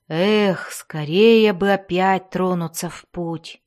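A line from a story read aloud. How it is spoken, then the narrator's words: Moaning. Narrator (Russian): простонал Вольфгар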